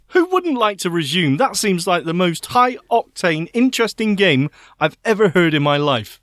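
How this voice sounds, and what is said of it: Sarcastic delivery. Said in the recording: “I think that was sarcasm.”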